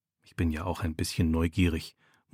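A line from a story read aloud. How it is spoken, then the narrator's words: Murmured. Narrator (German): murmelt er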